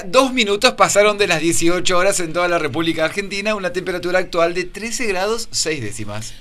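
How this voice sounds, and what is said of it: Radio announcer voice. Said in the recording (Spanish): “Con voz de locutor.”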